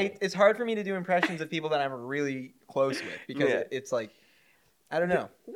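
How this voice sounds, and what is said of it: Usual voice. Nothing is said of it.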